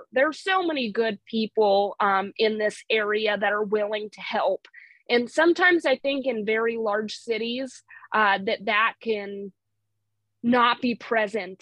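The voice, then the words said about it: Montana accent. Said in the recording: “my Montana accent, which I get all the time. People always say that I have an accent.”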